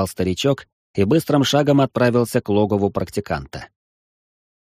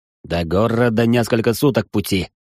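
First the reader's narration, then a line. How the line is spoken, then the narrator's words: Rider, through gritted teeth. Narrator (Russian): сквозь зубы произнес всадник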